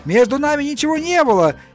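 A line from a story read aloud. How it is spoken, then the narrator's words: Shouting. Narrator (Russian): я закричал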